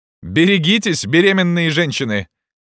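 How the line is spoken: Students shouting. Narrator (Russian): закричали студенты

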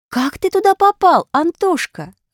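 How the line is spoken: Exclaimed. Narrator (Russian): воскликнула Аля

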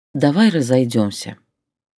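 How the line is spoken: Calm. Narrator (Russian): сказала спокойно я

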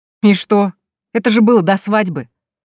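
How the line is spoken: Unruffled, dismissive. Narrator (Russian): Невозмутимо отмахивается он

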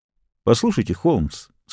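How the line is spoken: Dry. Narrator (Russian): сказал я сухо

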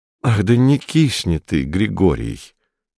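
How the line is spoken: Suffering voice. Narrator (Russian): страдающим голосом сказал

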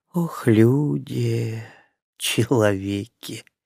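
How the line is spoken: Woman's faint sigh. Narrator (Russian): едва заметно вздохнула женщина

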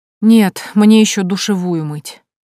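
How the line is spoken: Heavy sigh. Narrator (Russian): тяжело вздохнула

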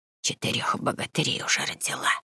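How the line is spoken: Old woman whispering. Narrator (Russian): прошептала старая Грета

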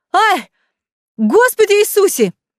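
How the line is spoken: Sudden yell. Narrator (Russian): вдруг заорал

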